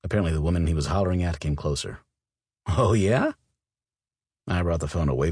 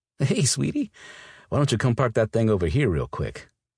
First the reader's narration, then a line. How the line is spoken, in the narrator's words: He laughed, and then hummed appreciatively